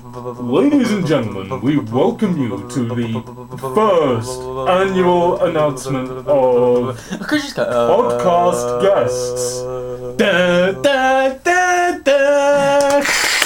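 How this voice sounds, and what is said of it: Grand awards-ceremony announcer voice. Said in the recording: “the Oscar ceremony kind of voice”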